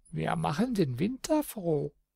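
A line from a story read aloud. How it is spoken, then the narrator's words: Giggling little men. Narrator (German): Die kleinen Männlein kicherten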